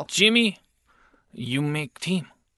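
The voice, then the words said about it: Fake Japanese accent like Pat Morita. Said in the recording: “That's like Pat Morita ... it's a fake accent. It's not real.”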